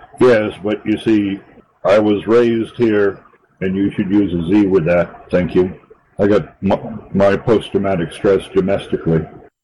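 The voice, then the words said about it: Generic American accent. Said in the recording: “you have a very, dare I say it, generic American accent. You don't sound like you're from that area at all”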